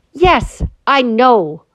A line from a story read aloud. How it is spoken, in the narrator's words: said Lucy crossly